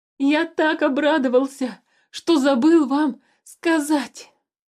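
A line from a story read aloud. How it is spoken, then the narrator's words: Sudden shout. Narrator (Russian): Вдруг закричал Туупань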